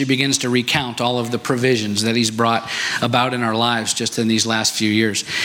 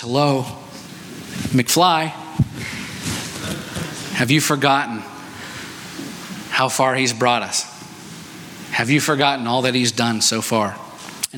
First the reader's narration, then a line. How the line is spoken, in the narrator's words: very lovingly and calmly says